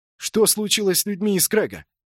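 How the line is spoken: Shout. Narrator (Russian): выкрикнул он

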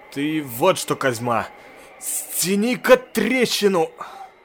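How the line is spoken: Panting, strained. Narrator (Russian): Пыхтя выдавило

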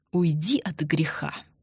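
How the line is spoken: Hissed through teeth. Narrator (Russian): Сквозь зубы прошипел Андрей

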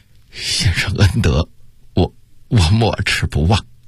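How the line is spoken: Choked with emotion. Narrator (Chinese): 想到金钟这般情重，他的心头顿时一热，……哽咽地说道

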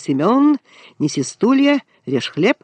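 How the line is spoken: Cheerful calling out, female. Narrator (Russian): Она радостно весело покрикивала

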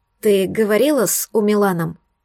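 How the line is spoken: Tense question. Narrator (Russian): спросила напряженным голосом Надин

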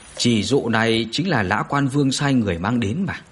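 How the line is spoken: Calm, smiling. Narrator (Vietnamese): Bạch Vô Thường bình tĩnh mỉm cười mà nói

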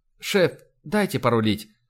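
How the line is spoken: Quiet request. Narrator (Russian): тихонько попросила Ива

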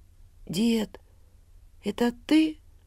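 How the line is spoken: Sleepy. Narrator (Russian): Сонно проговорил Илья

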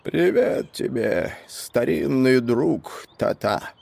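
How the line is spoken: Sharp hoarse voice. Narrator (Russian): сказал прибывший резким хриплым голосом

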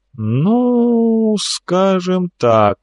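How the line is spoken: Drawled by a governor. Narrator (Russian): протянул губернатор

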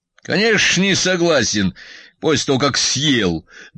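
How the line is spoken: Good-natured joking father. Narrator (Russian): добродушно пошутил батя

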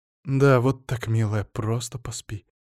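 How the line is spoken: Soothing whisper. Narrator (Russian): зашептала Самина

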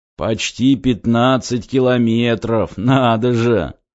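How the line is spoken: Old man's snort. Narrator (Russian): хмыкнул дед

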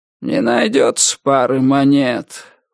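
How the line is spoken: Tired drawl. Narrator (Russian): устало протянул кто-то

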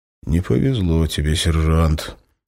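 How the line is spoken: Sighing officer. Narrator (Russian): вздохнул майор

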